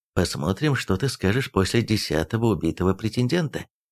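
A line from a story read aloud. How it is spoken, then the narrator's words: Quiet. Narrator (Russian): тихо произнес Эйрих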